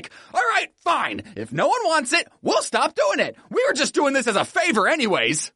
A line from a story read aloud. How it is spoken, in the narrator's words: YouTube snapped and was like